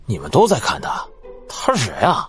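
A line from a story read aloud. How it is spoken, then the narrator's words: Passerby, quiet muttering. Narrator (Chinese): 一路人小声嘀咕道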